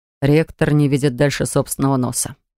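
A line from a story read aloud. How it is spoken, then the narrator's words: Scornful male snort. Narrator (Russian): пренебрежительно фыркнул мужчина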